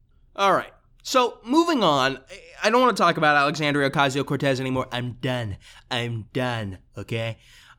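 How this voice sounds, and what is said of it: Imitates another person's voice. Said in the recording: “did a Trump impression”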